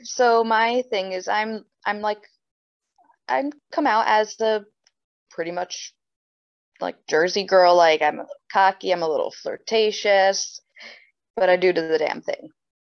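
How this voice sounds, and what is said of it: Mixed American and Swedish accent. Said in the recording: “I'm hearing from the accent, there's a bit of a mix of both ... the US and, and and Sweden”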